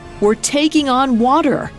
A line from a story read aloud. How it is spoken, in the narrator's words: Hymir cried out